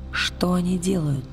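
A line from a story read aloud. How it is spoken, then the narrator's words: Whisper. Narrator (Russian): прошептала она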